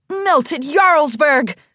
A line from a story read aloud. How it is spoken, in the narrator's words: Cheese exclaimed with a satisfied smile